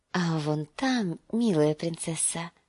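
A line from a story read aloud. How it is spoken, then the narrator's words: Whisper. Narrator (Russian): прошептал он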